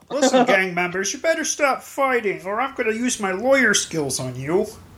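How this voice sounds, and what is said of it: Kermit the Frog character voice. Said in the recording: “Foggy was Kermit the Frog ... I just did that voice”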